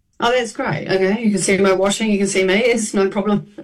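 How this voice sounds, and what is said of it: Australian or New Zealand accent. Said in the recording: “stupid Australian New Zealand accent”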